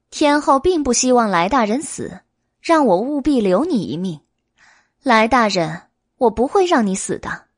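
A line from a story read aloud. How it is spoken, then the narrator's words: Grinning. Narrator (Chinese): 白姬咧嘴一笑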